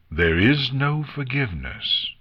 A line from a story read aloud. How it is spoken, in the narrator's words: Twilight said coldly